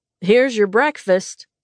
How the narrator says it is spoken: Bean said loudly

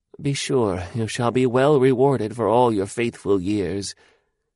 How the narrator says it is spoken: he murmured

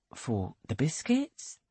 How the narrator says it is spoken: asks Bell softly

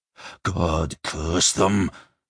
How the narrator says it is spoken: Sludig moaned

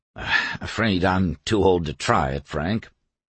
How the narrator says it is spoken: his voice was polite as he muttered

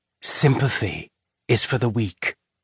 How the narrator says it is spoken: her father's voice whispered in her ear

